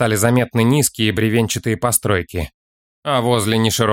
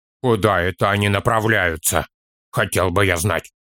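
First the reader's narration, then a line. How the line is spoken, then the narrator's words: Grumbling. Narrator (Russian): проворчал Торин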